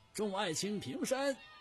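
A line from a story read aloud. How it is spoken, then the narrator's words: Loud commanding shout. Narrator (Chinese): 高高在上的朱重八，大声喊道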